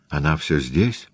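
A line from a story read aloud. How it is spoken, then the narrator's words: Quiet question. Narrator (Russian): тихо спросила Аннабель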